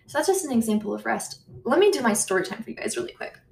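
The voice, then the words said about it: Very fast speech. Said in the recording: “sorry I'm talking so fast”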